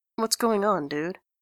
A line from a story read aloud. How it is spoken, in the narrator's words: says Grantaire quietly, sensing some hostility here